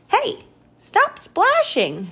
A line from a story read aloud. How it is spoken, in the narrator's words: shouts Norman